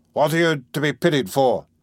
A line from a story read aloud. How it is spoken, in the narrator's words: shouted the tavern keeper